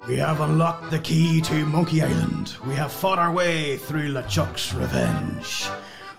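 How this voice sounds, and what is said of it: Dodgy pirate voice. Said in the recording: “do a really dodgy pirate impression”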